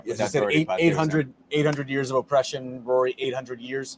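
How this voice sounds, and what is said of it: Put-on Irish accent. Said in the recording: “With a very interesting Irish accent, I must say.”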